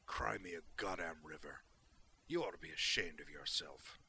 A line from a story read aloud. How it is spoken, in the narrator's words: He said flatly